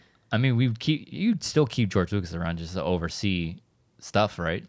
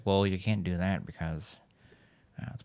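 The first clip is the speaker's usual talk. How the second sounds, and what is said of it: Bad George Lucas impression. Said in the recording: “my horrible George Lucas impersonation”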